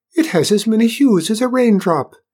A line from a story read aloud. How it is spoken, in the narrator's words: Aoife exclaimed